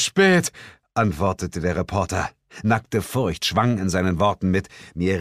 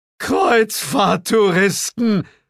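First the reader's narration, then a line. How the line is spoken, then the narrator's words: Scream drowned by hysterical shrieking. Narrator (German): Mein Schrei ging in Bills hysterischem Kreischen unter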